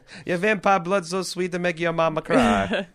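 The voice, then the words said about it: Exaggerated comic Italian accent. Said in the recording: “My accent's still better than Valentino's in this episode. ... My comically racist Italian accent.”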